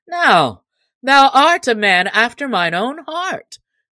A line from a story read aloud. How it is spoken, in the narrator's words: cried the cook right heartily